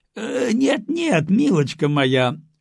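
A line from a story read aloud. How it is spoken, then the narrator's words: Laughing. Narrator (Russian): рассмеялся Николай Нилович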